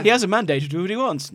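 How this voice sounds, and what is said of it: Imitates another person's voice. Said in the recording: “I am doing an impression of Jacob Rees-Mogg.”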